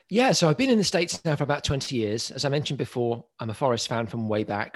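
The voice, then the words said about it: British accent, not American. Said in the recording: “you don't have much of an American accent ... originally from the UK”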